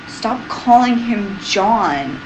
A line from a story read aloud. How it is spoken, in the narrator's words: Rodney snapped